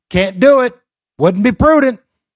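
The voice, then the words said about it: Imitates another person's voice. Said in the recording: “my bad impression of Dana Carvey doing an impression”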